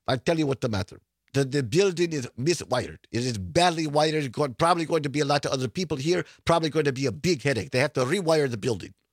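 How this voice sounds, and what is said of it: Weak imitated Ukrainian accent. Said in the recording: “I don't do a very good Ukrainian accent”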